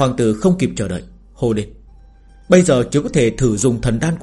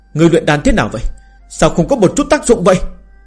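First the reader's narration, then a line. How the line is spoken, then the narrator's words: Angry. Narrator (Vietnamese): Đại hoàng tử tức giận nói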